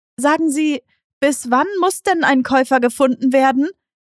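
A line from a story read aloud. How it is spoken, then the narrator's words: Calling after someone. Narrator (German): rief sie ihm nach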